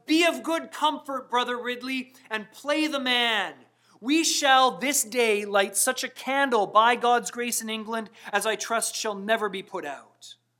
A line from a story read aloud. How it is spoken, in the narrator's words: when Hugh Latimer was tied back to back with Nicholas Ridley, and the two were being burned at the stake, he called out